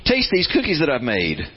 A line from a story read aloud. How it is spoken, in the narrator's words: cried Toad